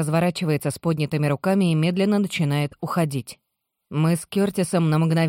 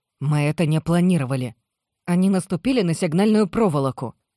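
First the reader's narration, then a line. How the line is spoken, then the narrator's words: Sharp reply. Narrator (Russian): резко отвечает она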